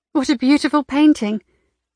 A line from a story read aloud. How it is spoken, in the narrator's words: she exclaimed